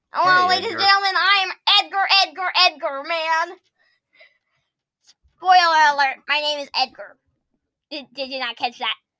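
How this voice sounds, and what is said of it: Weird put-on character voice. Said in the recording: “a weird voice that I have”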